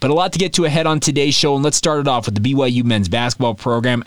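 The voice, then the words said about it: Slightly congested, sniffly voice. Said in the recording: “if my voice sounds a little funky, I'm dealing with some springtime allergies ... if I sound a little bit off or if all of a sudden I sound a little sniffly”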